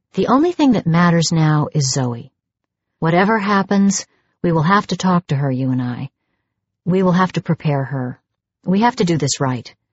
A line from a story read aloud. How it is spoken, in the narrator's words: I said calmly